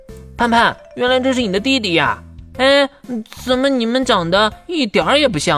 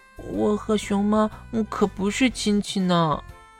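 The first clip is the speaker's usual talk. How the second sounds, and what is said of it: Quiet, soft-spoken reply. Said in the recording (Chinese): “小声的回应”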